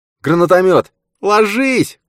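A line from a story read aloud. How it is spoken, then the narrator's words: Woman shouting from behind. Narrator (Russian): крикнула Каррера за его спиной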